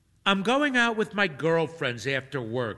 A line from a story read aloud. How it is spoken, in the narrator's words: she says